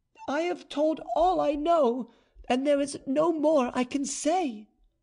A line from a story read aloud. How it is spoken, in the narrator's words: in her loudest voice the marquise repeated